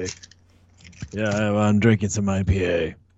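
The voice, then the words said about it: Imitates another person's voice, badly. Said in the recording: “my terrible Edgar impression”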